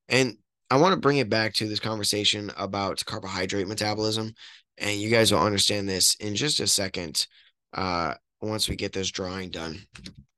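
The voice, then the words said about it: Strained, worn voice. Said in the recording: “I've been out in the cold all day and talking to people, yelling at people. It's not doing my voice any good.”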